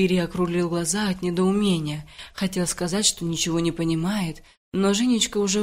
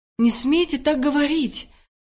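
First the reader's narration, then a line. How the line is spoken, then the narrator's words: Sudden shout. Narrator (Russian): неожиданно закричала Женечка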